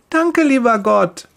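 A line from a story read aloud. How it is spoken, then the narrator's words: Cheerful calling. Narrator (German): ruft sie fröhlich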